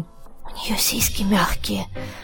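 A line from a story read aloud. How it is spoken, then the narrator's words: Whispered. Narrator (Russian): шепнул он Димке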